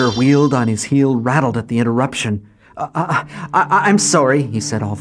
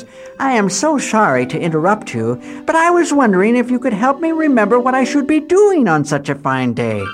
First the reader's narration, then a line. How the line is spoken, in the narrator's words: She finally said in her finest voice